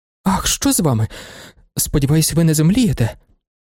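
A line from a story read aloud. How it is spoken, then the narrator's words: Frightened speech. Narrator (Ukrainian): Злякано промовила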